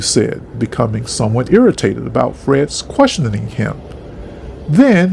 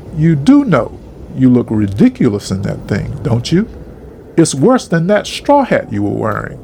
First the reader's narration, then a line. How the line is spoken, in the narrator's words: Fred just laughed and said